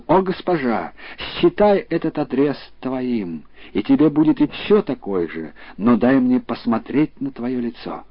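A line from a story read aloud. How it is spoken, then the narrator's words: Exclaiming. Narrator (Russian): А я воскликнул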